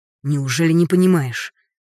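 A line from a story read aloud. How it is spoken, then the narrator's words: Sharp exhaled outburst. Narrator (Russian): Резко выдохнул Яр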